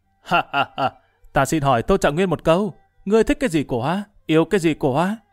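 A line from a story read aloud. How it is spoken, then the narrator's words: Changed voice, loud laughter. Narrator (Vietnamese): Gã chuyển giọng cất tiếng cười lớn nói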